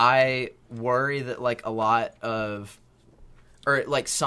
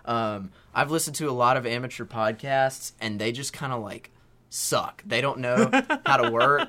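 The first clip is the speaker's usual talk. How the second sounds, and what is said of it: Put-on voice quoting a friend. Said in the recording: “This is not a good Asher impression, by the way. It's just a voice I'm doing.”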